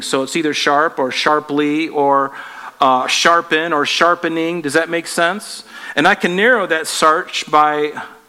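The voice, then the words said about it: Slight Southern American accent. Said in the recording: “I sound a little southerner ... I did come from the south, so it's kind of embedded in me”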